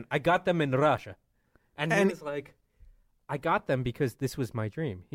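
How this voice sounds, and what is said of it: Thick Russian accent. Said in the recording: “the thickest Russian accent.”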